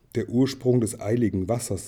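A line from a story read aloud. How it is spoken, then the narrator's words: Plain. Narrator (German): sagte Thorin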